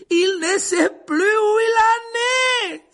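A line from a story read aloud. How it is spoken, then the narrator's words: Exclaimed. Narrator (French): s'écria Lupin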